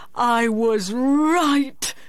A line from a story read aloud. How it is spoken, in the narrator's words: he cried